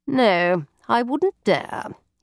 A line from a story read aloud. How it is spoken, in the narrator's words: he responded dryly